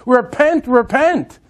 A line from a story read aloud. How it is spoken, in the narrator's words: yelling and screaming